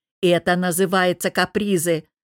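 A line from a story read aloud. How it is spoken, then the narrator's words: Raised voice, snapping. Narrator (Russian): повысив голос, огрызнулся Богдан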